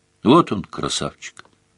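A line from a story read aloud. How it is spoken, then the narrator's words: Quiet, soft-spoken woman. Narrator (Russian): тихо сказала тетка Чари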